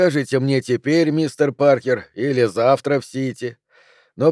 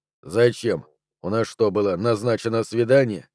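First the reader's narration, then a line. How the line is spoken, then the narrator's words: Mock sigh. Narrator (Russian): Бун притворно вздохнул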